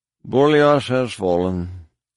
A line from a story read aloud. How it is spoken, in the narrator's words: said Chulkong La, his voice weary